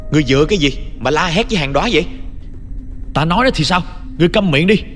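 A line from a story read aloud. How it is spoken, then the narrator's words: Angry shout. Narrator (Vietnamese): Thấy Hàn Đóa sắp khóc rồi, tôi không nén nổi tức giận liền hét lên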